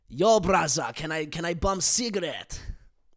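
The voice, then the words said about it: Deliberately bad German accent. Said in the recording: “This Austrian accent's so bad. This is a really bad German accent”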